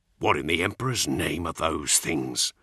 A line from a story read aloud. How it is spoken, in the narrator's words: Cole hissed